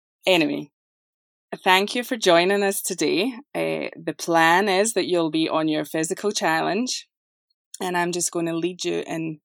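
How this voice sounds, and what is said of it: Scottish accent. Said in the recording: “you will notice an accent. ... this is not a Southern accent. ... I'm from Scotland.”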